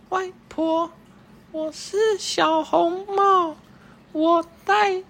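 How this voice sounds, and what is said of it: Imitated little girl's voice. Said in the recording (Chinese): “他装出小女孩的声音说”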